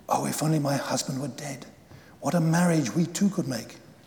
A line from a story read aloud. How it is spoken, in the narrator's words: she whispered